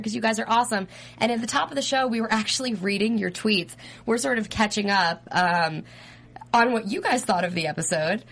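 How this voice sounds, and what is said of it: Rough, strained voice from illness. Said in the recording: “my voice is a little... My voice is a little messed up this week ... I'm under the weather”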